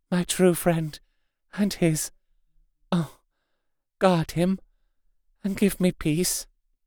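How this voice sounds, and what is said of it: Faint, pathos-filled voice. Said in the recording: “in a faint voice, but with untellable pathos”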